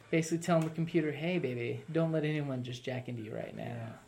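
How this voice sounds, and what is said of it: Deeper, put-on seductive voice. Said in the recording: “Don't ask why my voice got deeper.”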